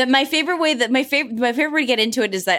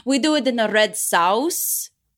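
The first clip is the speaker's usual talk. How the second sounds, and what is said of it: Imitated Italian accent speaking English. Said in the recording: “a lot of the Italians when they speak English and they're like asking you what you want to eat, they'll be like”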